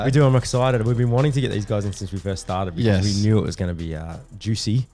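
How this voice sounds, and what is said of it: Congested, stuffy-nosed voice. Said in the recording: “I sound a bit terrible, but yeah, I'm a bit sinusy.”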